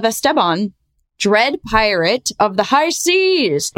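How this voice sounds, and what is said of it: Bad put-on pirate accent. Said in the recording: “Bad pirate accent.”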